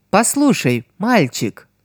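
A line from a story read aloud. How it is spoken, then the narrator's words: Honeyed voice. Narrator (Russian): Медовым голосом проговорила Нене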